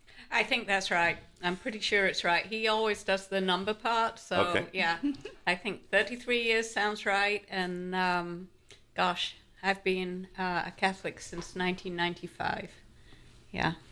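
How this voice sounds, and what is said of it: English accent. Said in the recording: “There's an accent here.”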